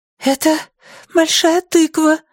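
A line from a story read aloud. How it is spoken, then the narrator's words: Exclaimed. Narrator (Russian): воскликнула Джанель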